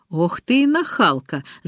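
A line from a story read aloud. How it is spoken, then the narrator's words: Laughing. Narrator (Russian): засмеялся он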